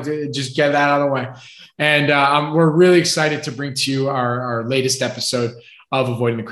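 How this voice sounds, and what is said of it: Usual voice. Nothing is said of it.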